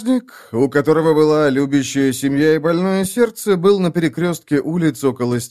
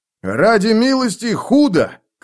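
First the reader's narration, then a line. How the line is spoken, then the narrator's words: Shouting. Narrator (Russian): крикнул он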